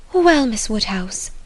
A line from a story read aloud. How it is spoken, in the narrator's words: with a gentle sigh